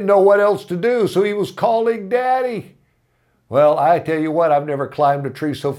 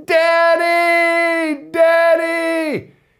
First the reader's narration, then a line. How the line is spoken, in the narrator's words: he's screaming